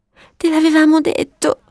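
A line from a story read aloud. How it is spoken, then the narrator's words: Sobbing. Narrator (Italian): singhiozzavano Violetta e Papavero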